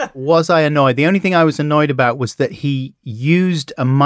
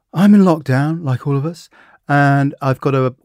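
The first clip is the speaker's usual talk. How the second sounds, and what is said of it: Weak Louis Theroux impression. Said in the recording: “I can't do a good Louis impression.”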